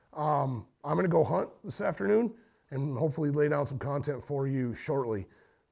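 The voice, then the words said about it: Slightly hoarse voice. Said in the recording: “tell my voice is getting a little hoarse.”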